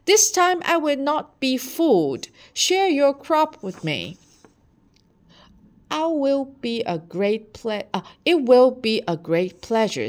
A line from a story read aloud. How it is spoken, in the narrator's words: he yelled